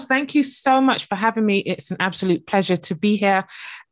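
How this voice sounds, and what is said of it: British accent with Barbadian roots. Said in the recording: “As you can probably tell from the accent, I am based in the UK, but originally born in the beautiful Barbados over in the Caribbean.”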